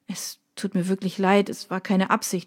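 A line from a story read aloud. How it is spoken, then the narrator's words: Stammered. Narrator (German): stammelte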